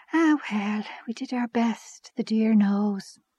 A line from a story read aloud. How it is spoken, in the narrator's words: she gave a little sigh and said